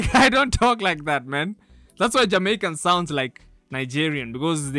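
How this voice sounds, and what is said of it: Usual voice. Nothing is said of it.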